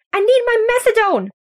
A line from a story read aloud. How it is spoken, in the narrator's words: shrieks an elderly woman